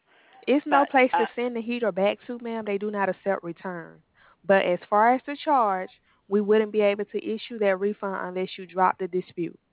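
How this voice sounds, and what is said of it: Strong accent. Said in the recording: “Your accent is a little bit strong for me.”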